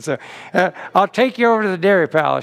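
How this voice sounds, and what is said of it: Put-on Southern accent. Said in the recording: “This is the only accent I'll ever try to do, by the way, Southern accent. I'm no good at no other impersonation.”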